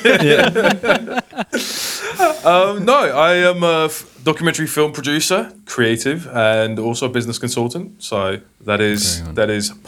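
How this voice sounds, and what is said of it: British accent. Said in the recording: “your fake British accent”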